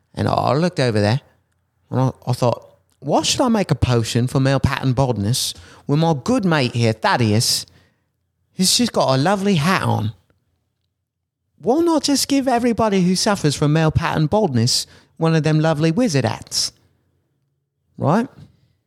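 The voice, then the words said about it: Put-on accent. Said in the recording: “You gotta stop with the accent.”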